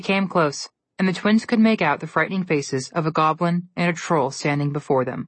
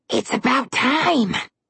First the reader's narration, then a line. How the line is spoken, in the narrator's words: said the high-pitched, raspy voice of the taller